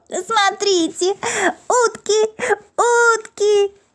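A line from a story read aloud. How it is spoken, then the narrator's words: Joyful laughing shout. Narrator (Russian): он смеялся от радости и кричал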